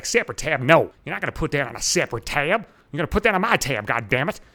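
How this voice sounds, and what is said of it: Put-on Virginia accent. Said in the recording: “In his fucking sexy Virginia accent”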